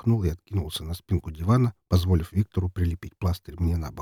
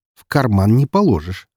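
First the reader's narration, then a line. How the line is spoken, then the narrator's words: Wry grunt. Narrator (Russian): хмыкнул он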